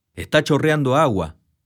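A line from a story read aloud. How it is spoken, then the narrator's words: Curt, aggressive exclamation. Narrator (Spanish): exclamó la mujer, después de un breve silencio que también me resultaba agresivo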